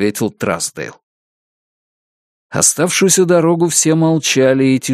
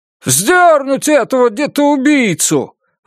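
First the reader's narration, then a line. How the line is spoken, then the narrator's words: Shouted out. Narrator (Russian): выкрикнул какой-то горожанин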